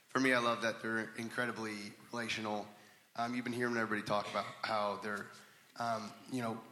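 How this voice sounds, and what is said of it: Hoarse voice. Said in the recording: “A little hoarse voice.”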